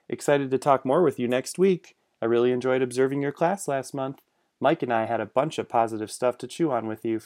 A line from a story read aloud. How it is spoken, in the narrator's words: Francis said